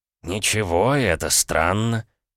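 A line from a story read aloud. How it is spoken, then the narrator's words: Drawn out, thoughtful. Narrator (Russian): протянул маг задумчиво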